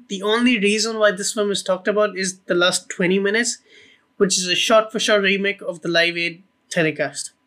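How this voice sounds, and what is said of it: Strong, noticeable accent. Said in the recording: “your beautiful accent, but like I love your accent so much. But it sounded like you said tried to put him in a boat”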